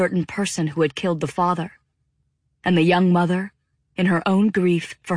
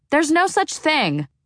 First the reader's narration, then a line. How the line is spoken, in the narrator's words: Devi shouted from the kitchen